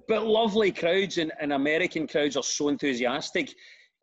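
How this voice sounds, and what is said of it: Scottish accent. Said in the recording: “such an authentic Scottish accent”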